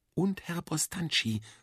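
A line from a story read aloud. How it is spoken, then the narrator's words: Whispered back. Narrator (German): flüsterte ich zurück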